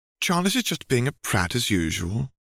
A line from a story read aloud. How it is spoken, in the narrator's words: the woman said sweetly